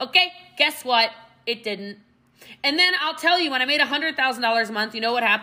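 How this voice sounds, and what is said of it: Usual voice. Nothing is said of it.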